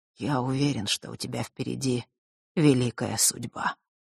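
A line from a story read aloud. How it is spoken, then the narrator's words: Muttered. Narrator (Russian): пробормотал Нортон-старший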